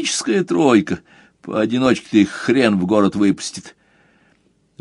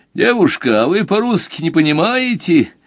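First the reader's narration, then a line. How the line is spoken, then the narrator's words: Loud cocky village lad. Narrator (Russian): Громко поинтересовался один, судя по ухарской физиономии, первый парень на деревне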